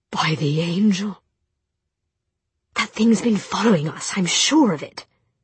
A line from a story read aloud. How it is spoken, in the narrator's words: said Jem in a low, urgent voice